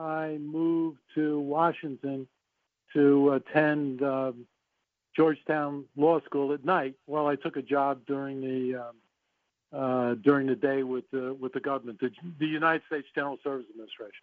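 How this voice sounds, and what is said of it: Bronx New York accent. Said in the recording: “I hear the accent still. Once in the Bronx, always in the Bronx.”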